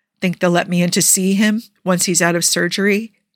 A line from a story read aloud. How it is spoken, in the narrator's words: he eventually asks